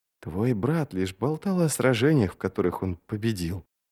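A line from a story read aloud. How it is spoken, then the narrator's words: Mutter. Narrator (Russian): пробормотала она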